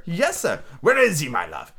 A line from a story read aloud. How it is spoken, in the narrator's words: said Scrooge